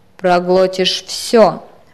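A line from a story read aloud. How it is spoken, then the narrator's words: Babbled, unexpectedly harsh. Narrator (Russian): пролепетал он неожиданно жестким голосом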